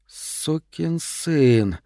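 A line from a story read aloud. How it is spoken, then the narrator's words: Heartfelt exhale. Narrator (Russian): с чувством выдохнула капитан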